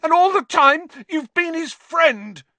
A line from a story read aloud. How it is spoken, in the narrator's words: he shouted at Lupin, his voice wavering out of control